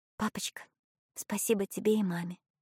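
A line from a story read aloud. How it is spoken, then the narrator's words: Whispered. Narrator (Russian): прошептала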